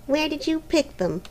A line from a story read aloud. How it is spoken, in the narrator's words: asked Helena sulkily